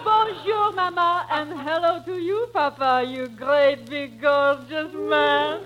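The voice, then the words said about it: Put-on French accent. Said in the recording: “where did your daughter get that French accent?”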